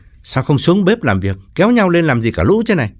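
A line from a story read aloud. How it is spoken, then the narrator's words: Resentful, sulky. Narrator (Vietnamese): Gã khựng lại một chút, hậm hực bảo mọi người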